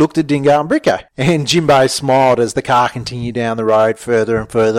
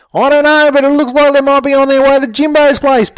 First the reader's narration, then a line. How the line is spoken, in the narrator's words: Bricko yelled as he continued to run